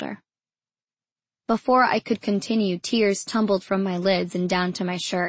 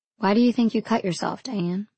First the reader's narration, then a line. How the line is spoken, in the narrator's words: she asked